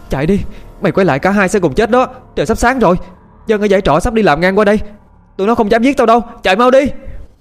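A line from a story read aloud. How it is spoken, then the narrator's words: Panicked shouting. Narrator (Vietnamese): hốt, chưa biết ớt giáp gì mà hét lên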